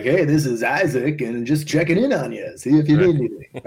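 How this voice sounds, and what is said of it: Upbeat morning radio DJ voice. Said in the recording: “good impression of your son ... it's a horrible impression. It's a great impression of like a morning DJ.”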